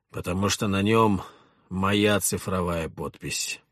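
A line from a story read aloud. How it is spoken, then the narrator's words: Gloomy. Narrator (Russian): мрачно ответил Петр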